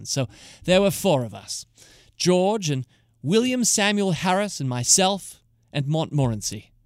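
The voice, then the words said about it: Put-on British accent. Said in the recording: “I'll be affecting my British accent ... I'm sure I'll get some of it wrong ... something like this accent”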